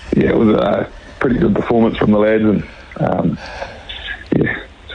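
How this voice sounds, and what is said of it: Slightly croaky voice. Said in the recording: “my voice is a bit croaky”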